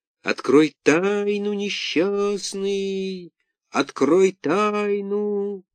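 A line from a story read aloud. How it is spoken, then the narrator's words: Eerie howling voice, muffled echo. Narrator (Russian): Буратино завывающим голосом проговорил из глубины кувшина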